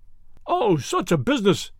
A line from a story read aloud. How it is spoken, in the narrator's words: he cried